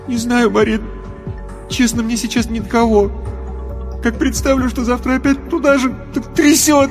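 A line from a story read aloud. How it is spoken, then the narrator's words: Sobbing. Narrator (Russian): Рев перешел во всхлипывание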